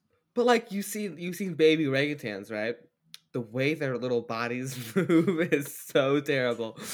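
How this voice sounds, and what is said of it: Usual voice. Nothing is said of it.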